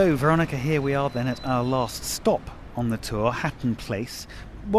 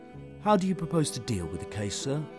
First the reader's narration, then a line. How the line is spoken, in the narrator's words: inquired the clerk in a low voice